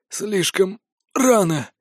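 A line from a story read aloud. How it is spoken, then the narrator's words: Broken whisper. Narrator (Russian): изломанным голосом прошептал Мор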